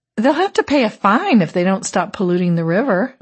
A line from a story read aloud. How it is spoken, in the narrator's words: I said cheerfully